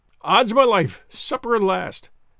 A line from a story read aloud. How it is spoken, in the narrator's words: said Lord Antony, merrily